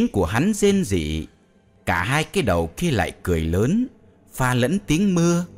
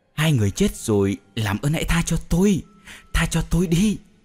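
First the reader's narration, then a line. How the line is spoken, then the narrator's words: Trembling plea. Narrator (Vietnamese): run run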